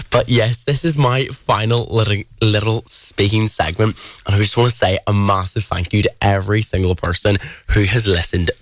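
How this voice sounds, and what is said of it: Irish accent. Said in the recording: “my accent is still here. Like if you ask any person from England where I'm from, they'll 9 times out of 10 they will hit the nail on the head and they'll say Ireland”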